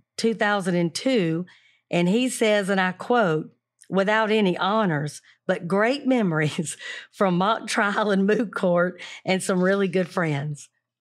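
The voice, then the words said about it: Thick syrupy Southern accent. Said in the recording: “that syrupy, thick, beautiful Southern accent.”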